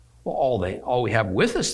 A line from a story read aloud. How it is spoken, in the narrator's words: they said